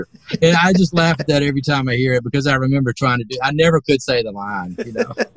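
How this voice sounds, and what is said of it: Southern Alabama drawl. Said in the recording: “You got that Alabama accent kind of too, right? ... It's a drawl, you know, whatever you want to call it down here”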